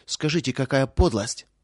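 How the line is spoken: Angry. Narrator (Russian): проговорила сердито

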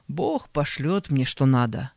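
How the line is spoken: Calm reply. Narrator (Russian): спокойно отвечал

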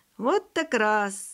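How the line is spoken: Laughing. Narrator (Russian): засмеялся Сережа

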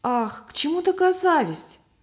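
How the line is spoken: Exclamation. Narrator (Russian): воскликнула Любовь

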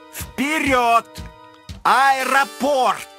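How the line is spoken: Shouting. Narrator (Russian): Он прокричал водителю

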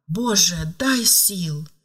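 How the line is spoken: Pleading. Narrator (Russian): взмолилась она

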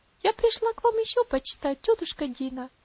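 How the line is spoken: Sweet gentle child's voice. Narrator (Russian): сказала маленькая девочка своим приятным нежным голосом

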